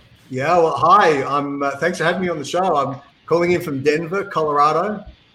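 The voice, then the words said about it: Australian accent. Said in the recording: “As you can tell from the accent, ... I'm obviously from Australia originally.”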